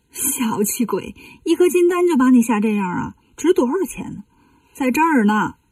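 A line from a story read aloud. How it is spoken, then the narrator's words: Laughing. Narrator (Chinese): 悟空一笑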